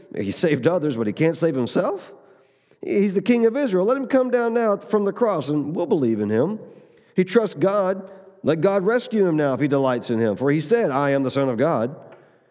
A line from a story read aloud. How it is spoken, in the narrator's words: the chief priest also among the scribes and the elders were mocking him and saying